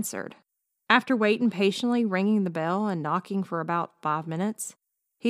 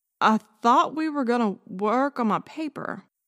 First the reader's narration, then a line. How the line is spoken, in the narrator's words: stammered Kenny